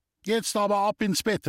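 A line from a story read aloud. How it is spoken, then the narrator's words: Mother calling. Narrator (German): rief die Mama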